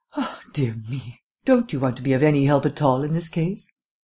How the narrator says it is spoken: asked sadly

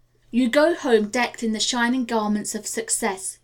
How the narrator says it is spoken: he said

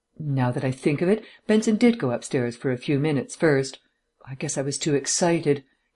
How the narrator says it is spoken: added desperately

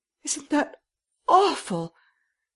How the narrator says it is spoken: She spoke in a stricken voice

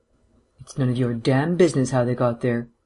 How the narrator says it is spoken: said, his voice as cold and even as ever

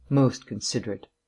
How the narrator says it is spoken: murmured Vance

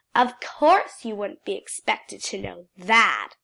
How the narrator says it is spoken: she said in her nastiest voice

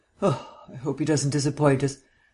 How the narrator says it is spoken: sighed Vance

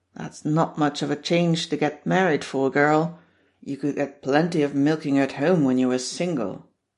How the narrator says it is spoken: old Silas will grunt

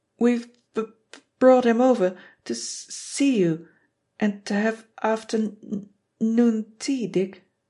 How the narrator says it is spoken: Joel stutter with even more pride than Dave

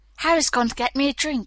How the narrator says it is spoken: panted

